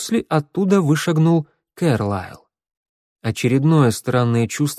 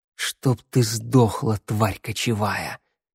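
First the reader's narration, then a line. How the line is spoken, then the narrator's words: Strange unfamiliar whisper. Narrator (Russian): коснулся уха чужеродный, незнакомый шепот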